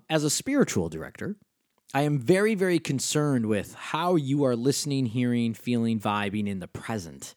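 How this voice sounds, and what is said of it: Western New York State accent. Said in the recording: “you can hear my accent, that Western New York State accent pop out”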